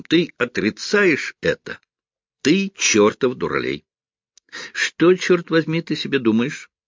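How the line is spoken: Laughing while objecting. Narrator (Russian): Стив продолжал смеяться и возражал

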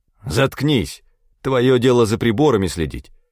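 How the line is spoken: Hateful bark. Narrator (Russian): рявкнул я, охваченный внезапным приступом ненависти

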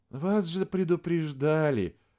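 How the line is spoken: Regretful tone. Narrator (Russian): сказала Вероника сожалеющим тоном

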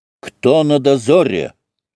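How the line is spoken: Barked shout. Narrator (Russian): гаркнул Алексей

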